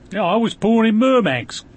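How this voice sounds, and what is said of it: Put-on Cockney accent. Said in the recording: “you have a Cockney accent”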